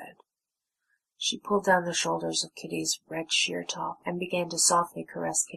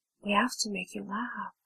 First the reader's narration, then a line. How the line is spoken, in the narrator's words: said Snow softly